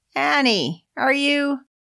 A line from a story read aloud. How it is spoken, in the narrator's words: called out impatiently